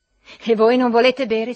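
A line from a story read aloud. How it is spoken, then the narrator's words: Impatient threatening yell. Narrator (Italian): si mise a urlare Trudor Ljubov, che aveva perduto la pazienza, minacciosamente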